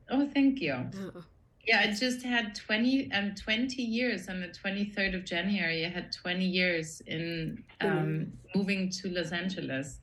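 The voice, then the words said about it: Austrian accent. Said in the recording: “I'm from Austria originally. ... I love your accent. ... But I kept my accent.”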